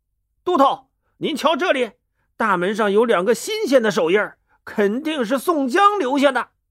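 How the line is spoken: Calling out. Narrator (Chinese): 一个官兵叫道

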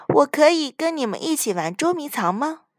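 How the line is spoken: Plain. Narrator (Chinese): 亨利问

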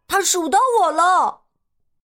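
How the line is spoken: Loud. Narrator (Chinese): 睡羊羊大声说

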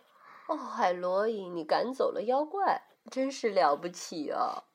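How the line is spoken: Tired but smiling. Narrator (Chinese): 她神色疲倦，可是她微笑的对我说

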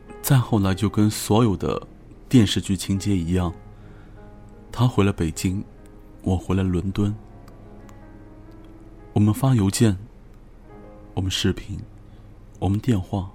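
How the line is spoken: With a sudden laugh. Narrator (Chinese): S 忽然之间就笑了，告诉我

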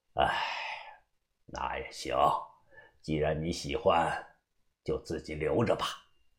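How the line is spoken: Sighing. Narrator (Chinese): 把头叹声气

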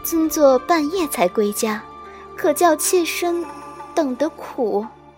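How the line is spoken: Soft, coy, sweet. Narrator (Chinese): 美人檀口轻启，声音委娇娇婉欲滴

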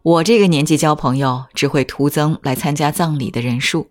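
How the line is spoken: Laughing. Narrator (Chinese): 淑子却笑着说

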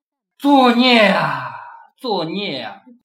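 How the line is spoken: Long weary sigh. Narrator (Chinese): 张丹成……长长的叹了一口气

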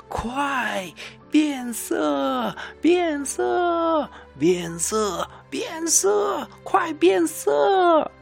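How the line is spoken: Loud laughing shout. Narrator (Chinese): 其他的灰狼也笑着大声的叫道

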